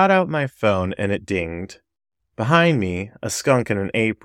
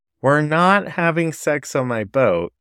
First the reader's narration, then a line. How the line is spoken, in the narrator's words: replied